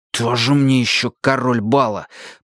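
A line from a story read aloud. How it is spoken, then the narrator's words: Hiss. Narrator (Russian): прошипел я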